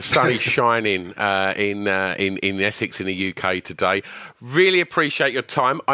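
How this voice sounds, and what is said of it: English accent. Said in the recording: “in London ... your accent is uh, bringing back fond memories”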